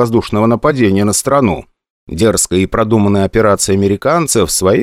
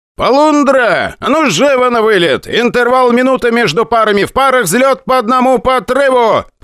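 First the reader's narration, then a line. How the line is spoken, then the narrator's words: Shouting. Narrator (Russian): прокричал Вольфрамович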